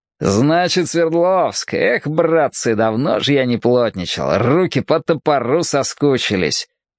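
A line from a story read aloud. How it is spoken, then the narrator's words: Happy laughing. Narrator (Russian): счастливо смеялся Василий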